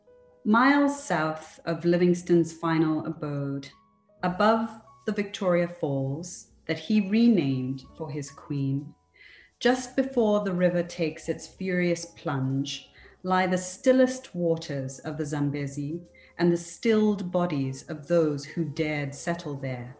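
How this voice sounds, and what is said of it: Zambian English accent. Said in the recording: “I'll be reading this in what I call my Zinglish accent, which is my Zambian English accent, which I grew up speaking ... code switching, which is when you speak with the accent of your hometown”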